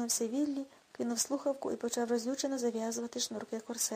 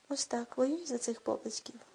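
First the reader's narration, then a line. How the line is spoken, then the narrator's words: Muttering. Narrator (Ukrainian): бурмотів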